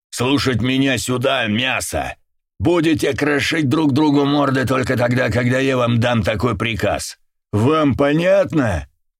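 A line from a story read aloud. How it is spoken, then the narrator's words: Bellowing at full volume. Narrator (Russian): гаркнул во все горло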